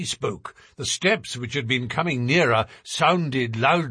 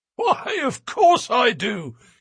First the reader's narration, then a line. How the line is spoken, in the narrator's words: he wheezed